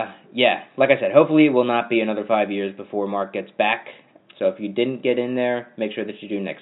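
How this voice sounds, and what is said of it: Usual voice. Nothing is said of it.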